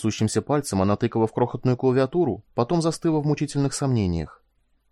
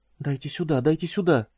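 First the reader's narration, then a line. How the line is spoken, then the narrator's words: Muttering. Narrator (Russian): забормотала Куин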